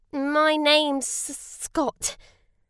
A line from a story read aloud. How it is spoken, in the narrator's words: Scott said nervously